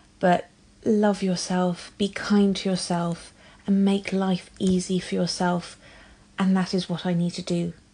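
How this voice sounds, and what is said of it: English accent. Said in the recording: “coming from an English accent”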